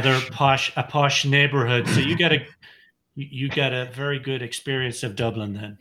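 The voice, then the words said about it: Irish accent, possibly Waterford. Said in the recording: “with your accent being what it is, you might be a Waterford”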